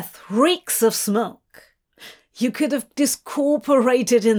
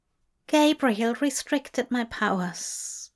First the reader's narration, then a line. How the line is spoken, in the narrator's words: Aziraphale replied weakly, unable to hide his shame